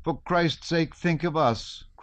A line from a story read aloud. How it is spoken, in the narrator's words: cried his wife